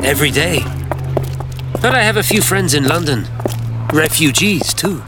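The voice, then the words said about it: Belgian accent. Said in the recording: “May a Belgian be permitted to use it? ... It sounds lovely in your accent.”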